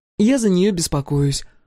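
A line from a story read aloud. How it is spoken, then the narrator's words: Sighing. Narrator (Russian): вздохнула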